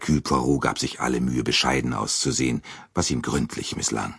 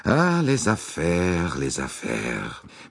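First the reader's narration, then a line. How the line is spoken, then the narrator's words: Sighing. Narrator (German): Monsieur Bouc seufzte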